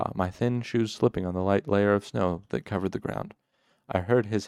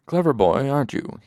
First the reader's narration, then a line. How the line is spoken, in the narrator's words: he panted, his breath hot in my face